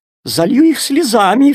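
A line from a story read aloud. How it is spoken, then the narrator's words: Sobbing. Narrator (Russian): всхлипнула вода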